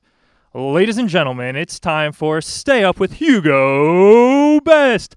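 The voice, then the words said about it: Announcer voice. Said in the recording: “my announcer voice? ... It was great. I think you have a second career. ... 7.”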